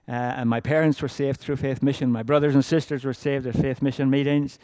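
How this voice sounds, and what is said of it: Irish accent. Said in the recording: “my accent is Irish, or kind of, I don't know what it is now”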